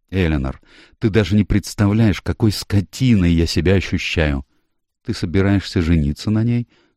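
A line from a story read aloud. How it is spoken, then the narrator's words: Calm inquiry. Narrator (Russian): спокойным голосом поинтересовалась Эленор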